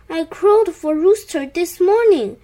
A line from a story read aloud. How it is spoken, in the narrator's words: groaned Cow